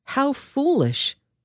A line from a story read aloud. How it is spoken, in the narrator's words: Samuel exclaimed